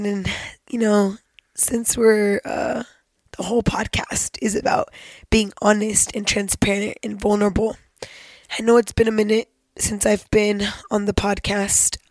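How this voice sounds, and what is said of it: Sick-sounding voice. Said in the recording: “Pardon my voice, I'm a little sick”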